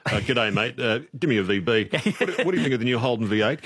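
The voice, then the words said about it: Caricatured blokey straight man voice. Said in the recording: “impersonate a caricature of a straight man”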